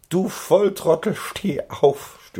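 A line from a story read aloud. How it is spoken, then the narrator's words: Groaning. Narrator (German): stöhnte sein Freund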